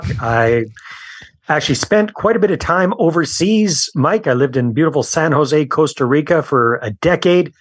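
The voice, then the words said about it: Canadian accent. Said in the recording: “I'm Canadian, as you'll pick up from my accent”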